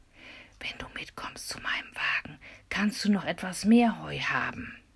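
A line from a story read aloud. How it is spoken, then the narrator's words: Whispered aside. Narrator (German): flüsterte er Michel zu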